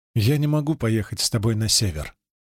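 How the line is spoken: Plain. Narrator (Russian): говорит Джулия

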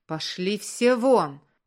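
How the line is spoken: Roaring in strange voice. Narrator (Russian): проревел не своим голосом

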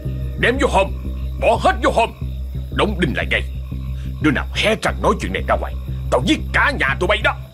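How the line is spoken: Hoarse hiss through teeth. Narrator (Vietnamese): Ông Tài giọng khàn đặc rít qua kẽ răng

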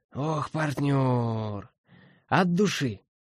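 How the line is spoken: Joyful voice. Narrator (Russian): радостно произнесла Трис

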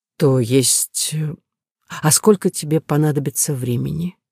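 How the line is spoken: Hesitant, gentle. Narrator (Russian): я искренне не хотела его расстраивать, поэтому неуверенно предложила

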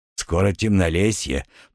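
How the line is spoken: Grumble. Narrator (Russian): пробурчал Варнава

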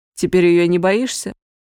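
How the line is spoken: Laughing. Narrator (Russian): Кирилл засмеялся

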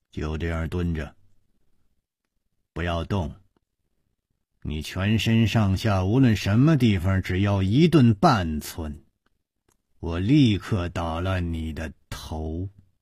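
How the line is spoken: Cold. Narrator (Chinese): 一个人冷冷地说

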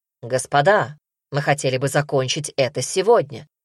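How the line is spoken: Sharp, irritated. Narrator (Russian): Урса, которую это начало раздражать, резко сказала

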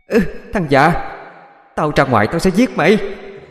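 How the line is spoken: Shouting from inside. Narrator (Vietnamese): Bên trong vang lên tiếng hét

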